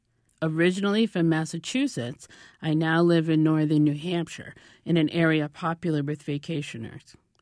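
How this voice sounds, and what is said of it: New England accent. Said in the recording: “I am a New Englander, born and bred, with the accent to prove it.”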